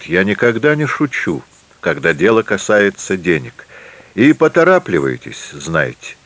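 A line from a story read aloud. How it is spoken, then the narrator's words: Calm. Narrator (Russian): спокойно говорит он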